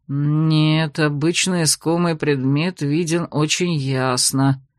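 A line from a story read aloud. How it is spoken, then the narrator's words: Upset mutter. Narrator (Russian): огорченно пробормотал магистр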